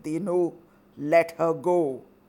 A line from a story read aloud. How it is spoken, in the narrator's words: in a loud voice, he said